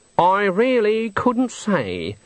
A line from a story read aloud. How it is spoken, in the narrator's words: said Granny haughtily